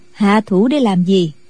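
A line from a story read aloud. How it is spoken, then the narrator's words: Smiling question. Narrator (Vietnamese): Định Nhàn sư thái mỉm cười hỏi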